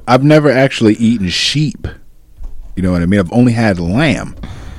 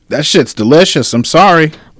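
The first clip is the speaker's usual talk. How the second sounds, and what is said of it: Yelling. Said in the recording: “Why are you yelling?”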